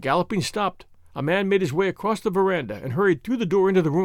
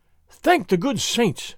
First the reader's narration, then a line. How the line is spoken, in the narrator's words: Don Carlos gasped